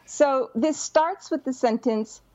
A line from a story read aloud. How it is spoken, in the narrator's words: Violet shrieked